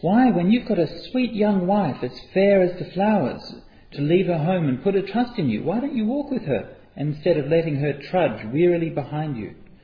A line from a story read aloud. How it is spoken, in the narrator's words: the men called out to the bodhisattva